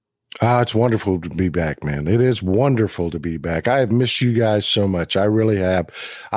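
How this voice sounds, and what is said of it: Hoarse, partly lost voice. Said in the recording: “forgive my voice, Tony. I've lost my voice a little bit. I got a little bit of a cold”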